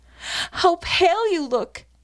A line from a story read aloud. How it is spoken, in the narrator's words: cried